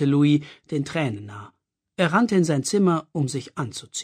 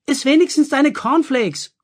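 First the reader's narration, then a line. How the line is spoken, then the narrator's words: Mother calling after. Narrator (German): rief seine Mutter ihm hinterher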